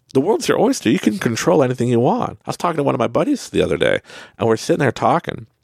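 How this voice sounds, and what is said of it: Canadian accent. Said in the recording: “you can hear my Canadian accent, sorry”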